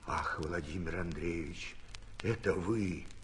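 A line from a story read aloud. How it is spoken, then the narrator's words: Whispering. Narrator (Russian): отвечал Архип пошепту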